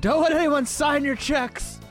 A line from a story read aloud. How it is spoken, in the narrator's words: Jerry Stiller screaming